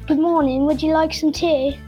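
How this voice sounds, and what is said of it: Put-on British accent. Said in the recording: “Mr. British ... That's better than my British accent, that is.”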